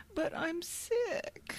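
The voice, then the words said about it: Pathetic, whiny sick voice. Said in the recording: “in your most pathetic voice.”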